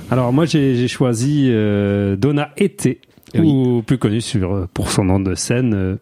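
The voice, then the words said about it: Speaks with a put-on accent. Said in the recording (French): “Pourquoi je prends un accent?”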